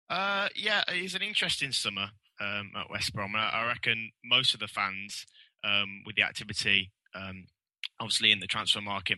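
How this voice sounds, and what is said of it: Brummie (Birmingham) English accent. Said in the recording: “a bit of a Brummy accent”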